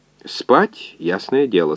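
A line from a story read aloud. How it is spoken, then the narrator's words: Calm. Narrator (Russian): спокойно ответил доктор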